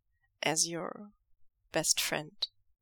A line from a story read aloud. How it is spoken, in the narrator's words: Lanjan asks quietly